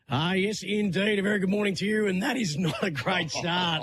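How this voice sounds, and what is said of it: Rough, poor-sounding voice. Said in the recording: “as bad as my voice is this morning”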